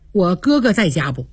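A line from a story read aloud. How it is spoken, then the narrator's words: Plain. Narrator (Chinese): 他问那谁，薛蟠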